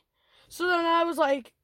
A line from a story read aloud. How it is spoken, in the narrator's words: I shouted